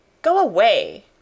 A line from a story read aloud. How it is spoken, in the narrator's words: cried Mary